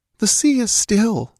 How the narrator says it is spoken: sighed Olivia

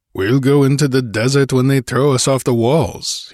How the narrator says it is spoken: he snarled

